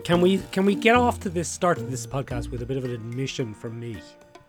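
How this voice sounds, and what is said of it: Hoarse, croaky voice. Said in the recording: “Does my voice sound a bit hoarse and croaky? ... There's a sexy quality to it”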